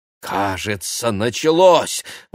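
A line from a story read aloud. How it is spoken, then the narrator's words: Exclaiming. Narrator (Russian): воскликнул Игорь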